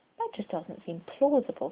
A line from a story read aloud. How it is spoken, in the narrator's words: Colin noted quietly